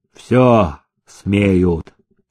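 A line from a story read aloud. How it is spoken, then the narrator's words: Cold. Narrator (Russian): сказал он холодно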